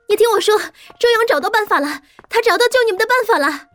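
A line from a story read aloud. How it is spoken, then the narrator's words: Shouting while running. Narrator (Chinese): 顾北一边跑一边喊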